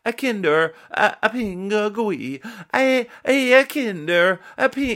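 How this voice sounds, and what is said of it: Put-on Italian accent. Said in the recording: “So maybe it's an Italian accent.”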